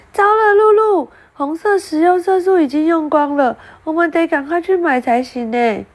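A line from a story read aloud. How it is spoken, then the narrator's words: Loud cry. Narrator (Chinese): 拉拉大叫了起来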